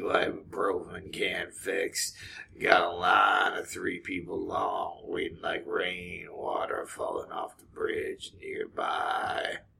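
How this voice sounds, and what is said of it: Low gravelly singing voice imitation. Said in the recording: “that was a little Tom Waits song ... I do a really bad Tom Waits impression ... talk out of the front of your mouth like a bulldog, but really low”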